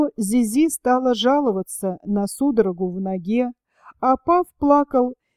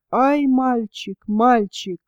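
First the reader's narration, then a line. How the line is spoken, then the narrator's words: Sobbing cries. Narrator (Russian): Верочка продолжала, правда, рыдать по-прежнему, вскрикивая поминутно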